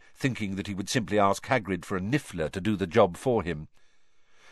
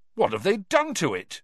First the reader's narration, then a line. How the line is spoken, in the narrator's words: Cedric said indignantly